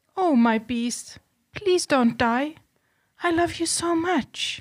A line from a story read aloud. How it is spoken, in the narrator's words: Beauty cried